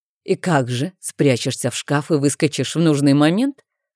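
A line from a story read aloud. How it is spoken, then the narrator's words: Skeptical snort. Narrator (Russian): хмыкнул герцог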